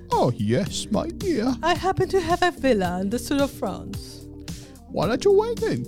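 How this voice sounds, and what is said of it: Unconvincing put-on British English accent. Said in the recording (Spanish): “Nuestro acento más chava que, nada inglés. ... Queremos ser británicos. ... Pero evidentemente no nos sale.”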